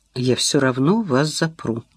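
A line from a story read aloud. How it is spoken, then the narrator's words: Calm declaration. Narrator (Russian): заявила Инна спокойно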